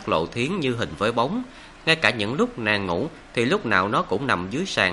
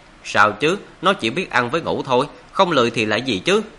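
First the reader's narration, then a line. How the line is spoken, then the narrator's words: Laughing. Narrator (Vietnamese): Mộ Dung Thiên bật cười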